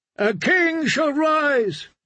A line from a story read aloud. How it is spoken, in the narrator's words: the drowned men cried